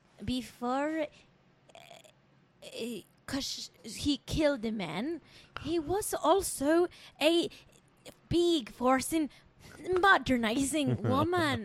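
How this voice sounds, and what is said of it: Imitates another person's voice, mixed accents. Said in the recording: “Do this in Lindsay Lohan's voice ... my Lindsay Lohan impression ... It's like eight different accents at once.”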